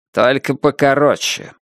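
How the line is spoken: Curt grumble. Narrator (Russian): буркнул Буллард

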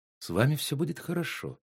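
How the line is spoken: Soft reassurance. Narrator (Russian): мягко уверила его она

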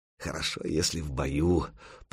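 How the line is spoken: Muttered. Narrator (Russian): пробормотал Дахи

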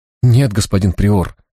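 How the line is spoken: Trembling voice. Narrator (Russian): дрожащим голосом ответил послушник

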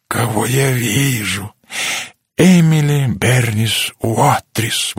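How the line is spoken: Exclaiming. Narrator (Russian): воскликнул он

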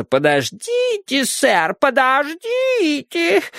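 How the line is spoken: Whining childlike voice. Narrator (Russian): сказал он хнычущим детским голосом

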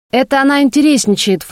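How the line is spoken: Brother snorting. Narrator (Russian): фыркнул брат

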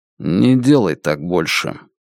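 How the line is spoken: Quiet. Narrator (Russian): Лун негромко сказал

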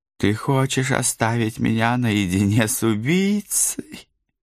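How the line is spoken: Pitiful faltering babble. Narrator (Russian): Самым жалостливым голоском пролепетала Сабрина

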